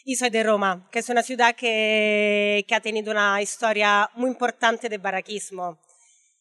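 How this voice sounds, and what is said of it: Italian accent speaking Spanish. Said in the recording (Spanish): “yo soy italiana, creo que se note bastante mi acento”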